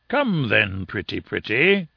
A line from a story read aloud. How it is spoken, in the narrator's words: in a coaxing voice